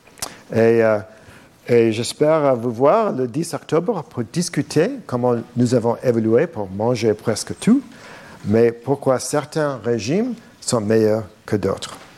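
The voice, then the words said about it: Non-native French accent. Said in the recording (French): “je suis désolé pour mon accent ... même si en français, il se peut que vous deviez parfois m'aider un peu”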